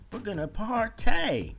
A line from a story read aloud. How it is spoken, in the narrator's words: yelled Amy